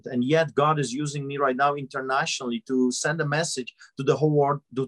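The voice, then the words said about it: Noticeable accent. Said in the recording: “listen to my accent.”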